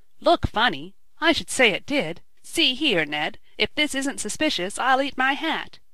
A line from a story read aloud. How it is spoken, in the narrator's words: he cried